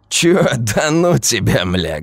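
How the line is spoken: Hoarse laughing. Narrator (Russian): Гопник хрипло засмеялся

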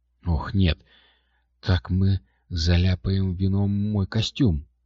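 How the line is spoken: Pleading. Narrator (Russian): взмолилась Кристина

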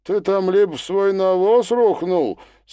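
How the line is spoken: Laughing shout. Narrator (Russian): смеясь крикнул Демид

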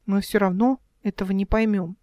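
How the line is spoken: Sighing. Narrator (Russian): вздохнул Димка

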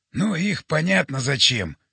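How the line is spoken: Amused snort. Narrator (Russian): хмыкнул Жора

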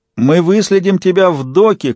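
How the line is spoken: Shout. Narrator (Russian): крикнула она

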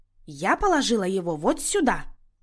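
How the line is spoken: Crisp, clipped. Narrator (Russian): отчеканила Люся

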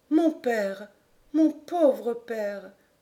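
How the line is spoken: Murmur. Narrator (French): murmura-t-elle

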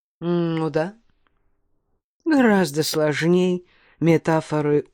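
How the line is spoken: Calm speech. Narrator (Russian): И заговорил, спокойно

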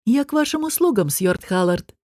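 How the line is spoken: Calm. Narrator (Russian): спокойно сказал Анж

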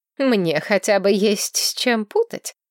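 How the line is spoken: Snorting. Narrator (Russian): фыркнула соседка

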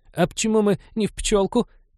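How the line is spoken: Squeak. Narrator (Russian): пискнул господин Реверс

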